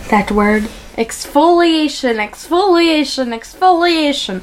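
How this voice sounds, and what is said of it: Put-on Polish accent. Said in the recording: “that really helps pump up my Polish accent”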